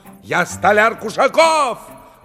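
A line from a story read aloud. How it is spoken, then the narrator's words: Carpenter shouting. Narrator (Russian): закричал столяр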